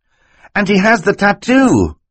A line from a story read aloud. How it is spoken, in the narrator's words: Klaus cried